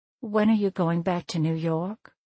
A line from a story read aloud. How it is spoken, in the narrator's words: I sighed and could feel the tears coming to my eyes as I said